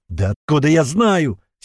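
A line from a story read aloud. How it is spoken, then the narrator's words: Exasperated shout. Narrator (Russian): в сердцах крикнул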